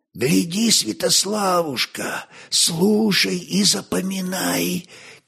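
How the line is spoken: Soft whisper. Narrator (Russian): тихо прошептал Велиздар

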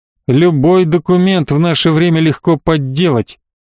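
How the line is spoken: Through gritted teeth. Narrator (Russian): процедил Перельи

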